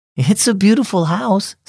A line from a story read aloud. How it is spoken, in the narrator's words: said Mom